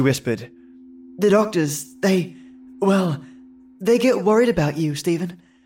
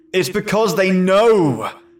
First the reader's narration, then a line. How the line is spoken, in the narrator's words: Stephen exclaimed